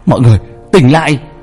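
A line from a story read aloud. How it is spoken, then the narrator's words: Shouted. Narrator (Vietnamese): tiếng hét của ba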